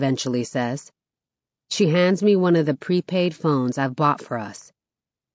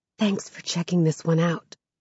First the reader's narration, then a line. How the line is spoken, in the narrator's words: she says quietly